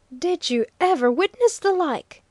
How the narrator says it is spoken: awesomely cried Bruno

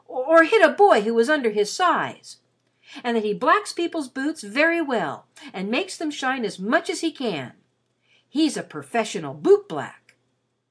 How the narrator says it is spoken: he exclaimed

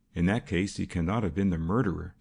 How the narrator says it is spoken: said the detective quickly

